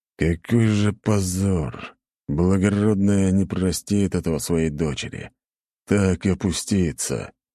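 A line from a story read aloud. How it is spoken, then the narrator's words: Grumbling man. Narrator (Russian): ворчал черноволосый мужчина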